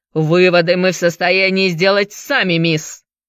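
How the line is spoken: Barked. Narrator (Russian): рявкнул судья

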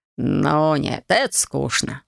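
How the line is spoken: Drawling. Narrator (Russian): протянул Геларх

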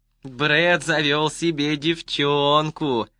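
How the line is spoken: Singsong drawl. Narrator (Russian): нараспев протянул он

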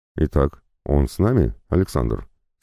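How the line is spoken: Plain. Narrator (Russian): спросил Уитвард

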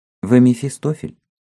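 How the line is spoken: Simple, meekly curious question. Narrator (Russian): Он самым простым тоном, в котором слышалось кроткое любопытство, спросил

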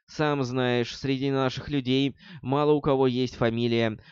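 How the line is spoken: Laughing. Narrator (Russian): рассмеялся черный молот

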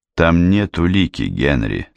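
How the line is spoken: Plain. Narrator (Russian): сказал я

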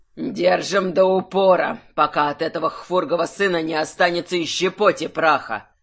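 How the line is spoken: Growling. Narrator (Russian): зарычал архимаг

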